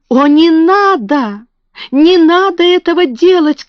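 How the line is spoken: Shouting. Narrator (Russian): крикнула она

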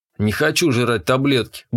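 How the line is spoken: Grumbled. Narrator (Russian): буркнул я

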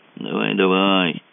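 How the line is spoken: Dejected. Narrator (Russian): сказал Мазур уныло

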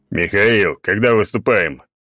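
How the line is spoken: Deep bass. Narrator (Russian): пробасил Черномор

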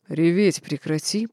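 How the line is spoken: Growling. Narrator (Russian): прорычал он

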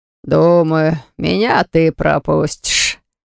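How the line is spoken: Amused grunt. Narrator (Russian): хмыкнул мэтр Дайен

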